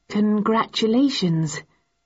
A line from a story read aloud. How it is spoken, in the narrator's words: I said, slightly uneasily